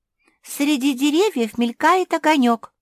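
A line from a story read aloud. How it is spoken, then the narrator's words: Exclaimed. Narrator (Russian): воскликнула Куки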